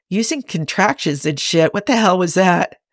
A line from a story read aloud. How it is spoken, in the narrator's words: Cybok chuckles